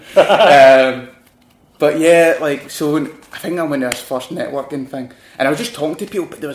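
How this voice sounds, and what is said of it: Glaswegian Scottish accent. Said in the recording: “even my accent, I know I'm from Glasgow ... people were struggling to understand me ... had to slow it right down so you could understand ... I need to slow it down now.”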